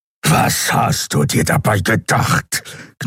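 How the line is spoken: Growled. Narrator (German): knurrte Kero

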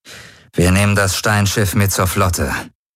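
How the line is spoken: Cold voice. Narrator (German): sagte Jun mit kalter Stimme zu den anderen Kommandanten

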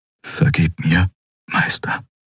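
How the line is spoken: Whisper. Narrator (German): flüsterte

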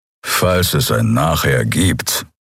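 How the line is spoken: Growl. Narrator (German): knurrte Kero

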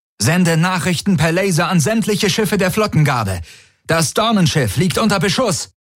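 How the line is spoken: Called out. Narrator (German): rief Tari

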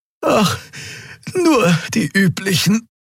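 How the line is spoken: Panting. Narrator (German): keuchte die Draxyl

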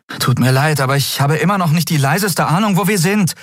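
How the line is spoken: Called out. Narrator (German): rief sie Nelen zu

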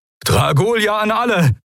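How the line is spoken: Call. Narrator (German): rief Helios

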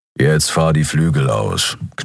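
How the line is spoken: Growled. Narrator (German): knurrte Keru

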